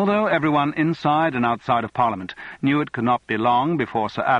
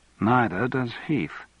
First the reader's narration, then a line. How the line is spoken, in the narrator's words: commented Elizabeth dryly